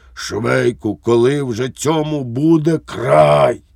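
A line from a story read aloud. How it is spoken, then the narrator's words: Hoarse exclamation. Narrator (Ukrainian): Поручник Лукаш охриплим голосом вигукнув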